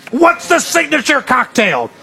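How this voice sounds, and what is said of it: Imitates another person's voice. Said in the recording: “That was a good impression ... I don't think I was mean enough”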